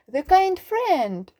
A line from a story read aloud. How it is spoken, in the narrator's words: he cried